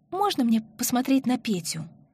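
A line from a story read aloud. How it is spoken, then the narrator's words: Timid, embarrassed request. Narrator (Russian): престыжно робко попросила Марина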